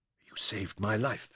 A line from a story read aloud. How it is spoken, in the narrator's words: whispered